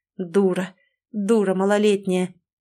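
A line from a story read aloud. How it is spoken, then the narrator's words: Through gritted teeth. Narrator (Russian): цедит сквозь зубы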